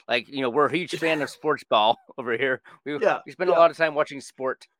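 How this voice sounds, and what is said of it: Mitt Romney-style mocking voice. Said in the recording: “She says this in her Mitt Romney voice.”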